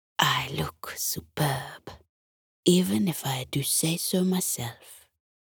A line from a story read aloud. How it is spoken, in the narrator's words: whispered